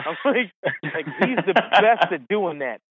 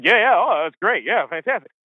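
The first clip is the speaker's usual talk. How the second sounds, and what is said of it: Imitates a white guy's voice. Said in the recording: “Why did you go to a white boy voice? ... That's your white boy impression.”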